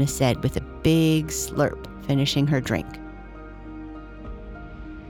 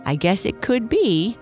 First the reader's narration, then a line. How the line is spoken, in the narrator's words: Lucy said, laughing